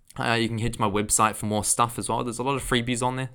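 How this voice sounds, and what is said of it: New Zealand accent. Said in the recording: “Excuse my New Zealand accent”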